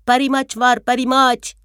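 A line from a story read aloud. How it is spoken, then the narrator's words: Shouting voice. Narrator (Turkish): diye bağıran sesini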